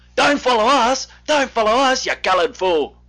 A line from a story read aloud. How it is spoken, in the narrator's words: Dave and Jim kept shouting back